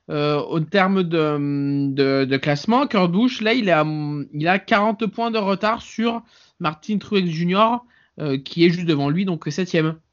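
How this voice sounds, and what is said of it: Sing-song southeastern French accent. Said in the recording (French): “ton accent chantant du sud-est ... Ouais, je me suis entendu.”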